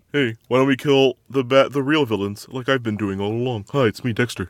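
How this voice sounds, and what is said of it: Bad cartoon character impression. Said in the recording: “This is my Dexter impression. ... It's really bad.”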